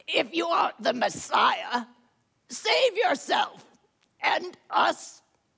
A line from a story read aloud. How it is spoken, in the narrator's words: One of the criminals who was crucified with him took up their taunts and rasped out